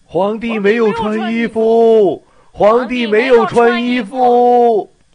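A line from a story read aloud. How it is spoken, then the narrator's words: Crowd saying. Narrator (Chinese): 人们都这样说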